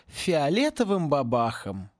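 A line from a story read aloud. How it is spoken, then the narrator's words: Sad. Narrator (Russian): грустно завершил за них Луж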